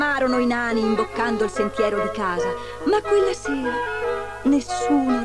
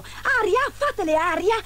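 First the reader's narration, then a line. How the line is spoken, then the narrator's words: Exclaimed. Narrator (Italian): esclamò il secondo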